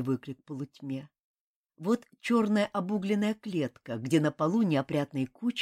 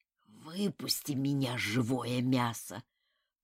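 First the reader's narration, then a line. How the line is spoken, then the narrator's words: Wheezing rasp. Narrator (Russian): прохрипел друг Толстый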